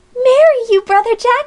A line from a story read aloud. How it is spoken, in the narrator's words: she screamed